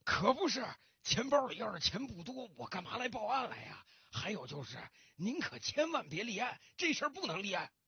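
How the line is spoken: Anxious, panting. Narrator (Chinese): 老先生更着急了，他大口大口的喘着粗气，继续说道

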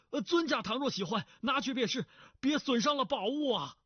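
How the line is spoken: Shouting. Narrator (Chinese): 那姓聂的叫道

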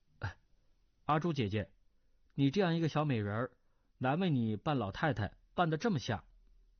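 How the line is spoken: Laughing. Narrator (Chinese): 段誉笑道

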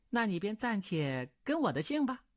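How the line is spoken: Smiling. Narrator (Chinese): 钟灵微笑道

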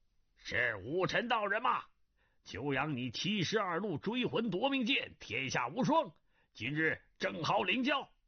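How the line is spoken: Loud shout. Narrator (Chinese): 清宫卫士中一个黑须大汉大声叫道

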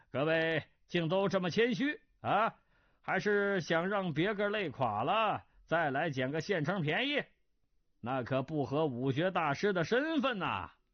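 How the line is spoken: Mocking jest. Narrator (Chinese): 似是说笑，以言相讥

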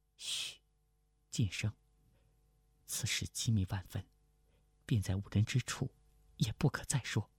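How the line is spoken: Low voice. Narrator (Chinese): 清平低声道

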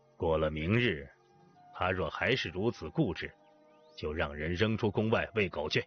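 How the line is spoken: Harsh stern. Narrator (Chinese): 令尹厉声的

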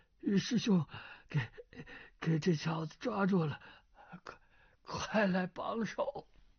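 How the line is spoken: Breathless, panting. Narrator (Chinese): 钱光胜的内力也已十成中去了七成，气喘吁吁的道

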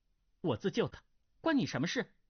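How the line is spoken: Angry young woman. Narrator (Chinese): 那女郎怒道

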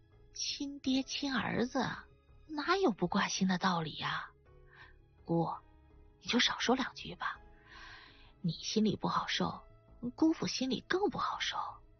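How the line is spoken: Quiet voice. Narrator (Chinese): 花冲小声地说

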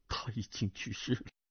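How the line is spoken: Tearful trembling voice. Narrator (Chinese): 胡斐泪盈于眶，颤声道

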